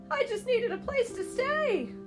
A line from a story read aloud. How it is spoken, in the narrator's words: the old man exclaimed